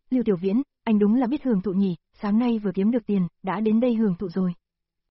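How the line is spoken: Cold mockery. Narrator (Vietnamese): Lục Tư Dao ... lạnh lùng chế giễu

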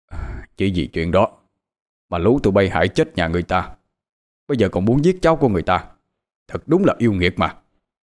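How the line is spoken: Shouted. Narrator (Vietnamese): Ông quát lên

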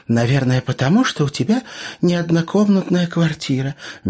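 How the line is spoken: Soft reply. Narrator (Russian): мягко ответила Тася

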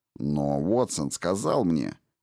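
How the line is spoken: Angry grumble. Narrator (Russian): зло проворчал Джейкобс

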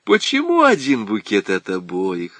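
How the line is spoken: Laughing. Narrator (Russian): рассмеялась Кыча

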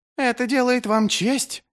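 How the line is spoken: Shrill voice. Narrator (Russian): визгливо говорил

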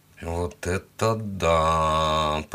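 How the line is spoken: Muttering. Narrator (Russian): пробормотал я

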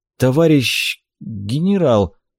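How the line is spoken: Confused mumble. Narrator (Russian): Растерянно пробормотал я

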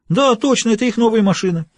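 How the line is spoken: Joyful confirmation. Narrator (Russian): радостно подтвердил

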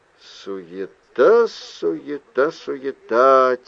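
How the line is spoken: Quiet muttering. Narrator (Russian): тихонько пробормотал Билл

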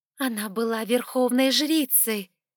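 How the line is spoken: Hissing. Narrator (Russian): зашипела моя собеседница

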